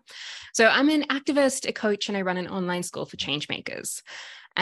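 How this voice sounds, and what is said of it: Australian accent. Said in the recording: “if you can hear my accent, I'm originally from Sydney, Australia.”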